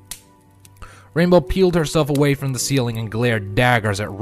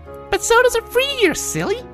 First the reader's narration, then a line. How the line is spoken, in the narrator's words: Pinky giggled